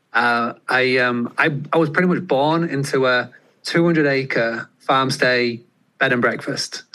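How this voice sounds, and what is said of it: English accent. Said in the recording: “As you can tell from the accent, I'm across the pond in England.”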